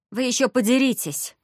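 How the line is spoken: Grumbled. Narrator (Russian): буркнула Видана, старшая сестра на Халке

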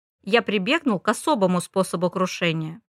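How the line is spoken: Plain. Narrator (Russian): ответил Лоудон

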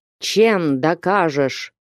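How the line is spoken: Unseen speaker grumbling. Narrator (Russian): проворчал невидимка

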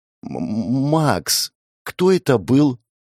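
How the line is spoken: Trembling voice. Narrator (Russian): спросил Адам дрожащим голосом

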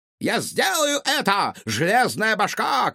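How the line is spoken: Shouted. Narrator (Russian): крикнул ученый

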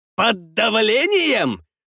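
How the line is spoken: Yelled. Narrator (Russian): заорал Гитлер

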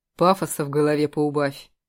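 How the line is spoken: Stern interruption. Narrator (Russian): строго оборвал ее Костя

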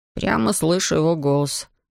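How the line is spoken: Young man grumbling. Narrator (Russian): бурчал юноша

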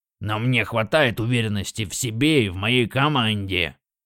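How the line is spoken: Snorting grunt. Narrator (Russian): Роршик хмыкнул и хрюкнул

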